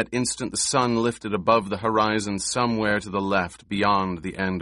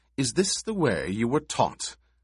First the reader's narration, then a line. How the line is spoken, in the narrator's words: She edged her voice with scorn, said